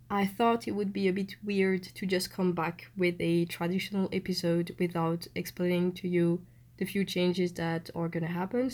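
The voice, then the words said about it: Voice sounds sick, unlike usual. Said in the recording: “I know I've got a cold, so my voice is not like the traditional one”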